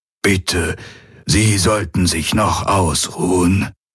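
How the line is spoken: Old man murmuring. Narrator (German): murmelte der greise Aur

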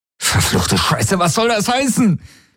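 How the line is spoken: Shouting. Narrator (German): schrie er sie an

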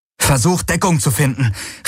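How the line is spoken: Urgent call. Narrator (German): rief Garlen

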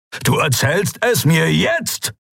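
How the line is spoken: Barking. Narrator (German): bellte

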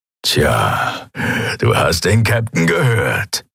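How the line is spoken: Gruff grumbling. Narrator (German): brummte er

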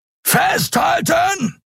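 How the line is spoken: Roared. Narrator (German): brüllte Keru

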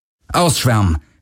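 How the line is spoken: Called out. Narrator (German): rief Galen

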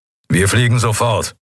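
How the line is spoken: Growling. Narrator (German): knurrte er

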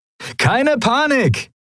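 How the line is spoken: Cheerful call. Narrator (German): rief Sephiron seinen Kumpanen in bester Laune zu

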